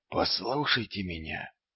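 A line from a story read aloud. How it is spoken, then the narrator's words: Barely audible. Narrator (Russian): едва слышно произнес Ваймс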